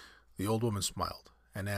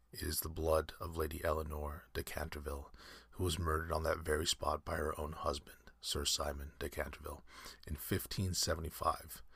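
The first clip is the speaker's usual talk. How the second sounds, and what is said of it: Low, mysterious voice. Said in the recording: “answered in the same low, mysterious voice”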